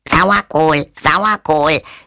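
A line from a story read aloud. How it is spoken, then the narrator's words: Shrill budgie screech. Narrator (German): schrie der Wellensittich mit schriller Stimme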